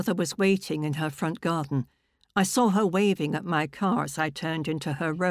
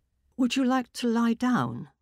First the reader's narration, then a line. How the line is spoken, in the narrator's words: my mother asked timidly